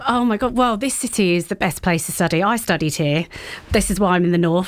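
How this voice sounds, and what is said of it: Non-northern English accent. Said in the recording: “despite this accent,”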